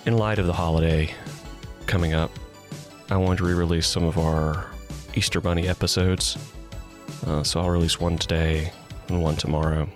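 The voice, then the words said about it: Slightly hoarse, croaky voice. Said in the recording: “as you can hear, I have a little bit of a frog in my throat”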